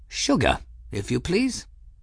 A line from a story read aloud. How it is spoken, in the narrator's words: Ferris said calmly